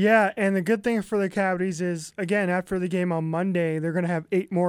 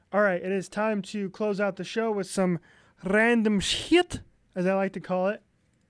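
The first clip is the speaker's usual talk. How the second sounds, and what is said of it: Unidentified fancy put-on accent. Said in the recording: “Ooh, I like the accent. ... I don't even know what I, what kind of accent that was.”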